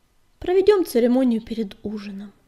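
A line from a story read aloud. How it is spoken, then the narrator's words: Calm, matter-of-fact. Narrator (Russian): спокойно сказала синяя звезда, как будто речь шла о давно решенном вопросе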